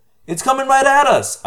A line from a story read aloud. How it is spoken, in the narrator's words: I cried